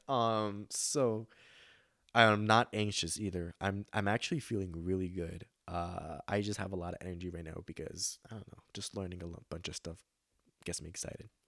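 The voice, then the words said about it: Breathless, energetic speech. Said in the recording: “I have a lot of energy, as you can tell ... I'm out of breath.”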